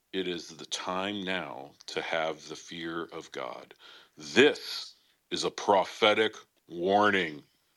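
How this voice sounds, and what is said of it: Mock preacher voice. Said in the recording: “in your Pastor X voice”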